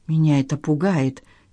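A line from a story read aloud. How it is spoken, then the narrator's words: Quiet. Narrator (Russian): тихо сказала она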